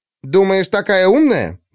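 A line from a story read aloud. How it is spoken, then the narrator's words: Exclaimed, clever girl. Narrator (Russian): воскликнула умница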